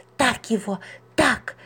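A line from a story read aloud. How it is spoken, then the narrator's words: Whisper. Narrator (Russian): шептала Маруся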